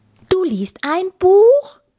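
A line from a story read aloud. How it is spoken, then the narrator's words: Shouting. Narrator (German): schrie Kapitän Kugelbauch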